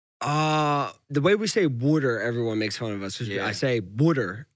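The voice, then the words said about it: Philadelphia accent. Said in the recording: “That Philly accent is unique.”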